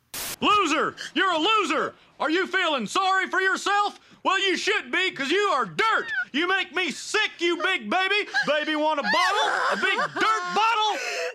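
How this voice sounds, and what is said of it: Yelling angrily. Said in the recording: “Why are you yelling”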